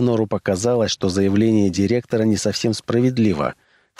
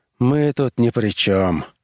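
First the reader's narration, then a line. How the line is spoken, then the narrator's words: Gloomy reply. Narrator (Russian): мрачно отозвался Мортон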